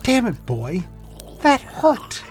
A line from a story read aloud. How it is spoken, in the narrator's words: Collins cried out